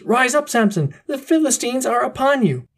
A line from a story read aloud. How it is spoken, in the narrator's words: Then she called out, as at other times